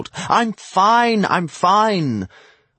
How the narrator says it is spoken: assured, yelling past the ringing in my ears

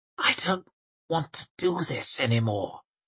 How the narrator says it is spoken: Temple whispered

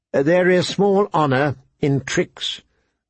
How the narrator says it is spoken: the old man said stiffly

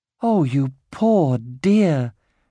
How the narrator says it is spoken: she cried

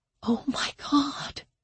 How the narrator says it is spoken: she whispered

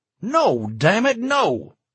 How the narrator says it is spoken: Tom snapped

